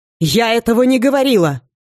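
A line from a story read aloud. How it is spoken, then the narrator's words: Nearly shouting. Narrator (Russian): чуть ли не прокричала она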